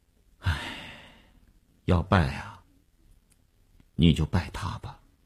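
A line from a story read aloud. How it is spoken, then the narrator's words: Helpless sigh. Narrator (Chinese): 那个钢琴师一声无奈的叹息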